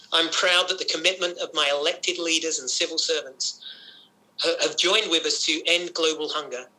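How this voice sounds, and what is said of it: Accent not typical of Canada. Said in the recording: “As a Canadian, despite this accent”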